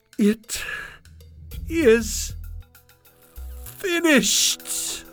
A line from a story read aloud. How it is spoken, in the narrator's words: he cried